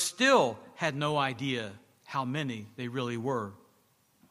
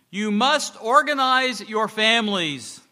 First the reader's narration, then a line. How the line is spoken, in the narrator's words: the man shouted to them